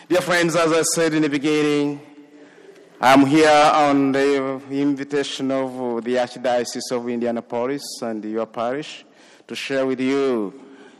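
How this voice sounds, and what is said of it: Foreign African accent. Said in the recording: “my foreign accent”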